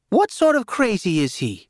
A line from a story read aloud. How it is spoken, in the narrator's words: my grandmother snapped